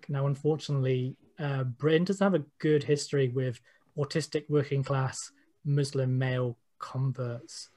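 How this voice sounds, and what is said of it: British working-class accent. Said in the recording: “I'm also working class, if it hasn't been noticed by my accent.”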